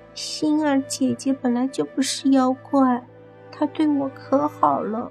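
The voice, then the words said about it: Quiet, soft child's voice. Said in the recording (Chinese): “小声的说道”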